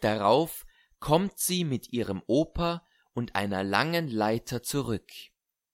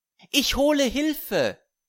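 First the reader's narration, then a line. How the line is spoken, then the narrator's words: Calling out. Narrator (German): ruft Fanny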